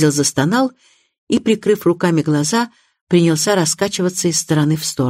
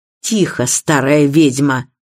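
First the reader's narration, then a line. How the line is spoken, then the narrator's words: Fierce tone. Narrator (Russian): свирепым тоном отозвался Безил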